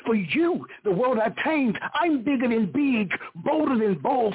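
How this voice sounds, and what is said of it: Loud, proclaiming voice. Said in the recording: “in a loud voice I proclaimed”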